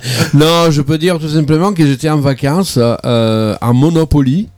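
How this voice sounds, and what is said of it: Italian accent with rolled r's. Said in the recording (French): “le charme italien avec ton accent un peu en roulant les airs comme ça”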